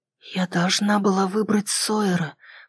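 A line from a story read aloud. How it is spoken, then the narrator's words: Whisper. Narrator (Russian): прошептала я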